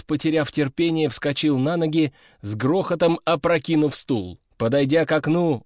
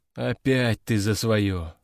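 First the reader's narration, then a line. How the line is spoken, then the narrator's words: Sighing. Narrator (Russian): вздохнул Овод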